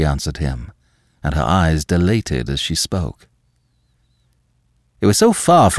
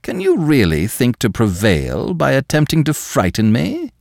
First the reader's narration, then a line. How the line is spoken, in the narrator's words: asked, and almost sneered